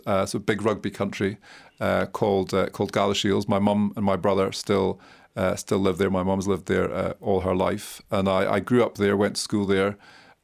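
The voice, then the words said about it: Scottish accent. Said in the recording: “people will be noticing your accent. I suppose it's not the stereotypical Whitehall old Etonian accent we expect from the UK ambassador. You're from Scotland.”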